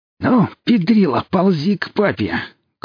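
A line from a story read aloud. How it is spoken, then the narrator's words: Bloodthirsty hiss. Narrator (Russian): кровожадно прошипел нищий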